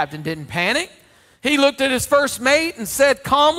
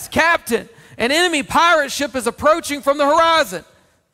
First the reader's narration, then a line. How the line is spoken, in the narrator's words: the ship's lookout yelled from the crow's nest